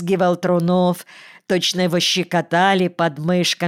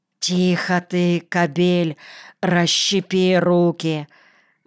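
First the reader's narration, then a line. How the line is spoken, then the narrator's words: Muffled low cooing. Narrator (Russian): глухо, словно вдавливая слова во что-то мягкое, ворковала Федосьевна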